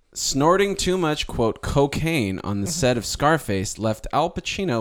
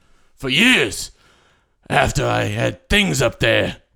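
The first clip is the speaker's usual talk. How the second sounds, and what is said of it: Imitates another person's voice. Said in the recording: “I'm going to try and do this in the best imitation that I can of this actor.”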